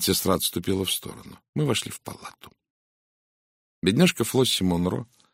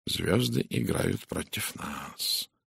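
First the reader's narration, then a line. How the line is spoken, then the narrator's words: Quiet. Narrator (Russian): тихо сказал Пуаро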